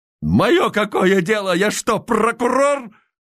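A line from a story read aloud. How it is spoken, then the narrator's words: Angry shout. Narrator (Russian): Озлобленно выкрикнул Михеев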